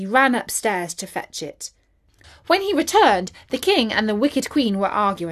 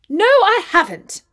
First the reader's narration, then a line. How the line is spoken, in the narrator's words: exclaimed Bertie